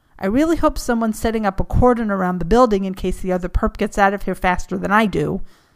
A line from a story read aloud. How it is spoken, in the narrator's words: Peter snapped